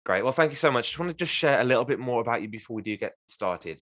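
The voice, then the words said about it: English Midlands accent. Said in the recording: “You're in the Midlands ... I'll try and hide my accent as best I can, but I'm never able to.”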